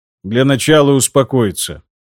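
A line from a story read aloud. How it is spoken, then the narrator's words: Calm. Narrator (Russian): спокойно произнес граф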